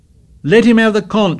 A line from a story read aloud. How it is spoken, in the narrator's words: shouted Piggy